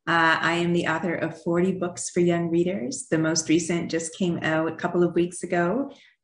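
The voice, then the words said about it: Slight Canadian accent. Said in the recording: “I grew up in Canada ... you'll probably still hear my accent while we're talking, especially when I say out and about”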